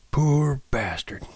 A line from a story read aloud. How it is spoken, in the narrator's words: he said softly